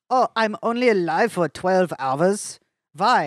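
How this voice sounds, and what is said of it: Put-on German accent. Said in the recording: “This is a world where Einstein is French. ... That was my German accent.”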